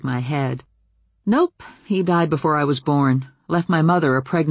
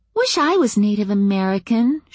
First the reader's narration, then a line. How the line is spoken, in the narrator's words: she said a little wistfully